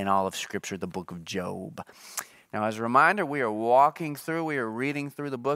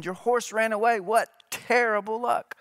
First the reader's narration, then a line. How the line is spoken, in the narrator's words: their neighbors exclaimed